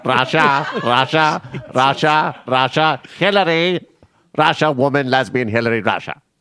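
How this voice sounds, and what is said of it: Rachel Maddow impression. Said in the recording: “my Rachel Maddow impression ... That's my impression of Rachel Maddow.”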